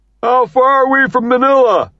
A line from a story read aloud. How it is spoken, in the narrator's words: Shafto hollers